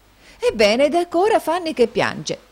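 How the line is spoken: Astonished exclamation. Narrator (Italian): esclamò la signorina Price, di nuovo stupita

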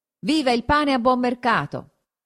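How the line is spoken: Shouting. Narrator (Italian): uno gridò

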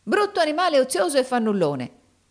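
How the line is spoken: Woman's exclamation. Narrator (Italian): esclamò la donna

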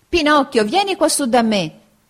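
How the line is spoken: Shouting. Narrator (Italian): grida Arlecchino

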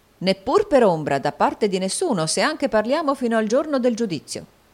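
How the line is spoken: Plain reply, captain. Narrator (Italian): rispose il capitano

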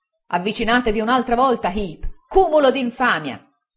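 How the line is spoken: Shouting. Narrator (Italian): gridò il signor Micawber

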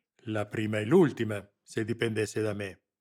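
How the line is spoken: Growling. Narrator (Italian): ringhiò Lamberti

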